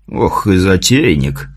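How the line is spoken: Snort. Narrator (Russian): хмыкнул Владимир

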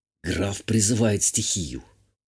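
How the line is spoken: Female warrior whispering. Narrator (Russian): прошептала воительница

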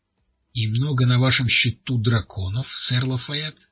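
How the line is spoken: Calm smiling question. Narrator (Russian): спокойно улыбаясь, спросила она

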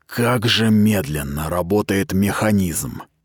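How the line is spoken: Sighed. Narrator (Russian): вздохнул Сахал

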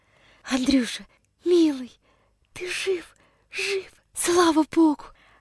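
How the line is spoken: Joyful whisper. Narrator (Russian): радостно прошептала Сибирочка

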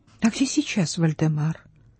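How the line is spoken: Old woman asking quietly. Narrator (Russian): тихо, спросила старая княгиня

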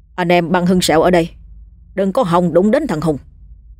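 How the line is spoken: Gruff menacing voice. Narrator (Vietnamese): có tiếng gằn giọng

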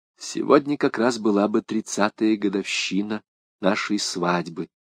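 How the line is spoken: Calm speech. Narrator (Russian): сказала она спокойно

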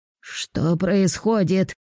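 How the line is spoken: Creaky old woman's voice. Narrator (Russian): снова проскрипела старуха в ящике

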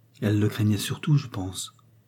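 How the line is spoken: Bitter murmur. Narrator (French): murmura amèrement Lise

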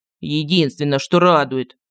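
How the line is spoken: Grumbling. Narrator (Russian): буркнул Мар

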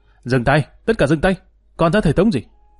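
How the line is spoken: Angry loud shout. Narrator (Vietnamese): Chính Đức giận dữ vỗ bàn quát to

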